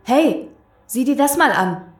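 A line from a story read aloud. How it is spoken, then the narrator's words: Called out. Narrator (German): rief er Sarah zu sich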